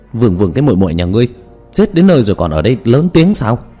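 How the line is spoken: Trembling, emboldened loud scolding. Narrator (Vietnamese): Hòa thượng kia bị hắn trừng mắt, cả người run rẩy, nhưng nghĩ tới hắn đang bị nhốt trong trận pháp, liền to gan lớn tiếng mắng

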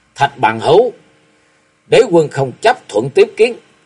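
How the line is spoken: Angry shout. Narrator (Vietnamese): mặt đầy vẻ giận dữ quát

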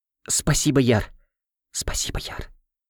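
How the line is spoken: Secret whisper. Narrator (Russian): Так, чтобы никто не услышал, прошептала она

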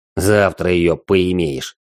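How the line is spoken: Smug snort. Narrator (Russian): хмыкнул Вал и с наглой ухмылкой

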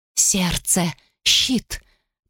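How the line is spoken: Hiss. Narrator (Russian): прошипел он

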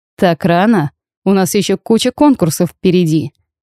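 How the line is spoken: King chuckling. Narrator (Russian): Хитро прищурился король, но в итоге хохотнул

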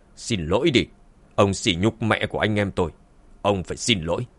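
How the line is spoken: Cold. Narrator (Vietnamese): Dương Chấn lạnh lùng nói

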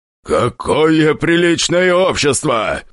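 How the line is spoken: Deep booming voice. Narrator (Russian): басил он

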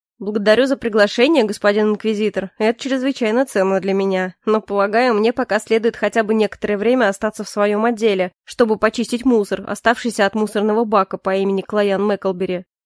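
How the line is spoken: Speaking then laughing. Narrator (Russian): сказал и все-таки рассмеялся на пару с Моррисом

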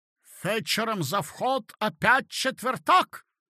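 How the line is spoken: Shouting after. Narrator (Russian): крикнул нам вслед хозяин

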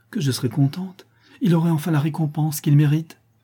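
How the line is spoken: Effusive exclamation. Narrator (French): s'écria Vasilissa avec effusion

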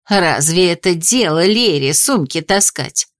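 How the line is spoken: Muttering under breath. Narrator (Russian): Анисия, бормоча под нос

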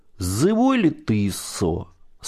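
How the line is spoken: Plain. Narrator (Russian): спросил

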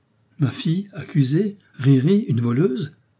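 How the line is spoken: Sick woman exclaiming. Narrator (French): s'écria la malade

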